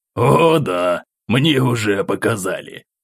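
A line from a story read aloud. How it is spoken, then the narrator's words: Cheerful chuckle. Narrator (Russian): Хохотнул граф, пребывавший сегодня в хорошем настроении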